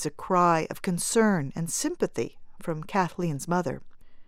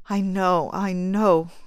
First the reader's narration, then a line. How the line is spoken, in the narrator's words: choked the lady in black